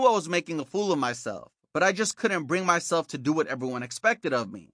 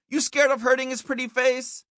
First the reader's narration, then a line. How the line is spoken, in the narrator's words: yelled